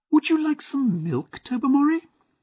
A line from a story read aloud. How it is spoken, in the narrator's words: asked in a high, unnatural voice